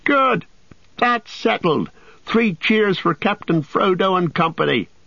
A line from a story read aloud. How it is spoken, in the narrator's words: they shouted